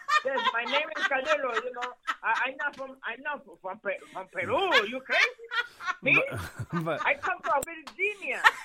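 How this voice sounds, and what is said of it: Heavy Spanish-accented imitation of father. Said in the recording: “fucking heavy accent like the one that her dad had”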